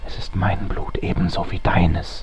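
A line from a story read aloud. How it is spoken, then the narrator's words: Whispering. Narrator (German): flüsterte ich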